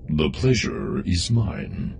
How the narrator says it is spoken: the droid said in a deep, rolling voice

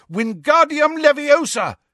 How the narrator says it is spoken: he shouted

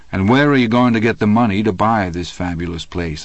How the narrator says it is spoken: I asked

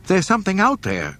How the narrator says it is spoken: she cried

